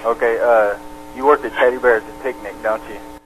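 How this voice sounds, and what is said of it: Very quiet, hard-to-hear voice. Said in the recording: “I don't know if you guys can even hear this. Like hi- his voice is so low”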